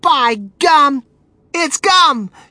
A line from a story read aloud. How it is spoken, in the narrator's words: she shrieked